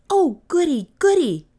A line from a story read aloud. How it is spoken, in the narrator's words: cried Kay